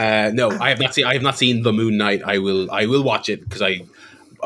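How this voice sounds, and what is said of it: Usual voice. Nothing is said of it.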